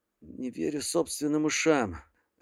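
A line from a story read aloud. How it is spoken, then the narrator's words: Strained, forced out. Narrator (Russian): лишь и смог выдавить юноша из себя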